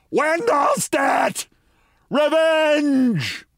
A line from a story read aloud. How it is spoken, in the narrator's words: I screamed